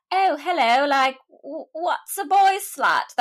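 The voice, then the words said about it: Imitated English accent. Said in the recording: “my best impression of an English accent.”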